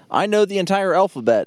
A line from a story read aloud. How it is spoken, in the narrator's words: yelled